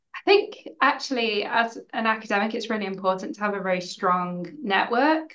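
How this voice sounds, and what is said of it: English accent. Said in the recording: “as you may have guessed from my accent, I'm not from Scotland, I'm English.”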